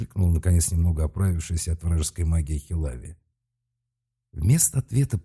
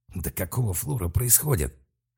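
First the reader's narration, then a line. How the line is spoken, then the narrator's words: Growled. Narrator (Russian): прорычал Малк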